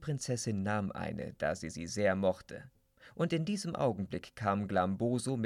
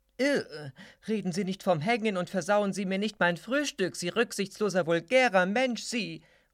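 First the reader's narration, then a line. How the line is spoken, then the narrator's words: Princess calling out. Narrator (German): ruft die Prinzessin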